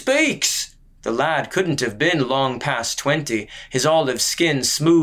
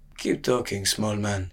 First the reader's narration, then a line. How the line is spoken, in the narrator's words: the Kadari murmured